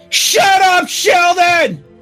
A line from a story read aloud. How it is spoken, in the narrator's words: They both yelled out